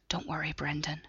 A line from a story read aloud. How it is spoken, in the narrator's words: she whispered